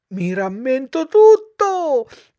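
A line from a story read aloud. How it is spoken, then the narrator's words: Shouting. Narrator (Italian): gridò Pinocchio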